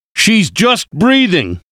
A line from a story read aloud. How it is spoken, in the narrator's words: he shouted